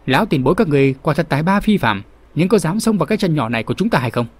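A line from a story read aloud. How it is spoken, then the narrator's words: Loud question. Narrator (Vietnamese): Kinh Ngân Tiên Hồ Diên Dị lớn tiếng hỏi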